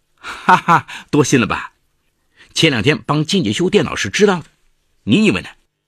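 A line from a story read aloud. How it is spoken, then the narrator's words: Hearty laughter. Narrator (Chinese): 杜磊哈哈大笑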